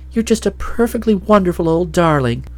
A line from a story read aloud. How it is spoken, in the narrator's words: Nadia exclaimed